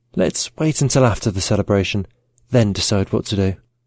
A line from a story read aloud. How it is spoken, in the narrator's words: came over to George and whispered in his ear